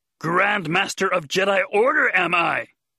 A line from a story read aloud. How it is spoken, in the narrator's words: He said loudly right in her ear